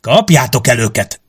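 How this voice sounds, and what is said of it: Rough, gravelly shout. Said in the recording (Hungarian): “Kiáltotta Kátó érdes hangon.”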